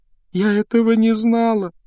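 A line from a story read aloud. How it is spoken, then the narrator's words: Sobbing. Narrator (Russian): рыдала Джинни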